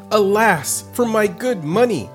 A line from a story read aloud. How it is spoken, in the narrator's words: exclaimed the merchant